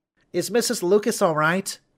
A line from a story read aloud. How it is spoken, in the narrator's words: Sarah asked in her little voice